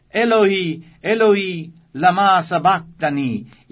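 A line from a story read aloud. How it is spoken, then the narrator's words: Loud cry. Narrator (Italian): Gesù gridò con gran voce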